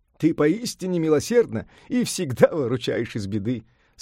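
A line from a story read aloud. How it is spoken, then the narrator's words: Laughing. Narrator (Russian): сказал, смеясь, Сунь-Укун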